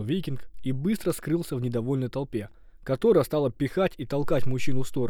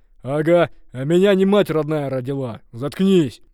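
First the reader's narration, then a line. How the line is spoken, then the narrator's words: Screaming. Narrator (Russian): завопил ярл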